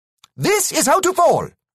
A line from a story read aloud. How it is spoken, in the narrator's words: he shouted again